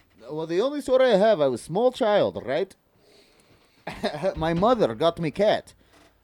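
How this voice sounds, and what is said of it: Put-on Russian accent. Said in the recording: “I do Russian very well... I think Russian's my best... All Russian... I think I speak very well Russian.”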